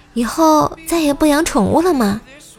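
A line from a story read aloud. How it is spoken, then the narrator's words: Sympathetic question. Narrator (Chinese): 朋友同情的问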